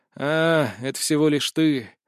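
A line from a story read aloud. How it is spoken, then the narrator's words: Disappointed sigh. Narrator (Russian): разочарованно вздохнул я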